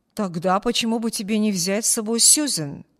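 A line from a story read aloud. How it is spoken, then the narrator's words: Plain. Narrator (Russian): спросил мистер Тревор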